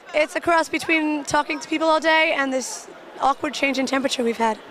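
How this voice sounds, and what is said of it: Slightly raspy, partly lost voice. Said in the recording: “lost your voice a little bit. ... A little bit. I'm a little raspy.”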